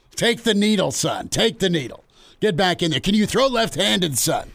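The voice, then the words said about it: Imitates another person's voice. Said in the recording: “It's my Whip impersonation”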